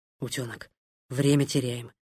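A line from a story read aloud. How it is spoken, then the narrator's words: Whispered. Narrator (Russian): прошептал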